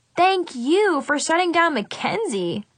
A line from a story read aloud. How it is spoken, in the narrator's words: I laughed